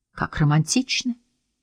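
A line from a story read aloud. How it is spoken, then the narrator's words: Sighing. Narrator (Russian): вздохнул Курт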